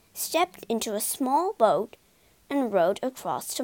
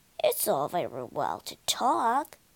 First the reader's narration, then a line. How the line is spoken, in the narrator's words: grumbled